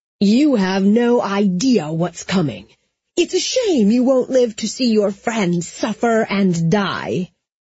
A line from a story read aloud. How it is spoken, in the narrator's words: she thundered